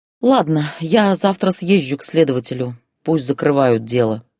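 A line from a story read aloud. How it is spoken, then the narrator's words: Sighing. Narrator (Russian): вздохнула она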